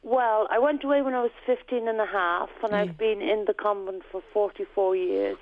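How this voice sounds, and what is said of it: Irish accent. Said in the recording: “you've got a fabulous Irish accent”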